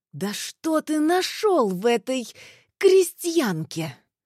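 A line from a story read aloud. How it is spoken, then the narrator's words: Furious hiss. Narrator (Russian): Разъяренной змеей зашипела девушка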